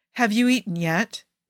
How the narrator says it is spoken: he asks, perhaps a little sharply, but fear and panic were starting to eat away at his patience

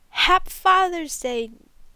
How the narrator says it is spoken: he yells

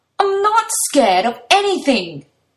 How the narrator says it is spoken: Toya roars back

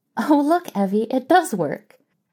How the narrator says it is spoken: Mary giggled helplessly

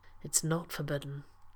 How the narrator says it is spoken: John said softly

